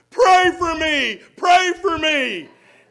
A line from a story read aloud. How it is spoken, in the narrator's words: the little boy cried out loudly to the congregation